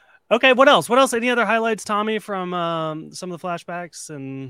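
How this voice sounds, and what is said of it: Usual voice. Nothing is said of it.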